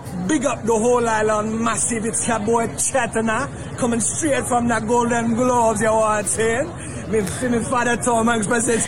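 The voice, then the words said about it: Put-on Jamaican accent. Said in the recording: “Jamaican accent”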